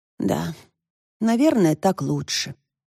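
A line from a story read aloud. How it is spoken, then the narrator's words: Dejected voice. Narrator (Russian): упавшим голосом проговорила Тошка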